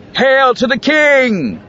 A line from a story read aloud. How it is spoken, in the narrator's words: Vika grinned shouted again